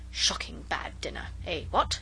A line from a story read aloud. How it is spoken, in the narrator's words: we heard him mutter to himself